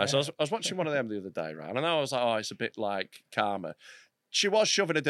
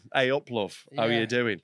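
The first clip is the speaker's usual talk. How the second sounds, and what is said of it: Put-on Yorkshire accent. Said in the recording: “a Yorkshire accent”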